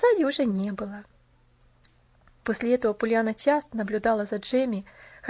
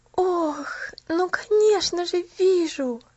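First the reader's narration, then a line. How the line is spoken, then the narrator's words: Breathless exhale. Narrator (Russian): выдохнула Пуляна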